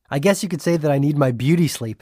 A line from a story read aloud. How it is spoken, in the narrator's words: Julian laughed